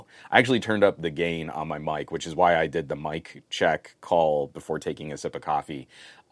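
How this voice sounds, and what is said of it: Rough, strained voice. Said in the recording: “my voice is already coming in a little bit rough ... a blown out voice”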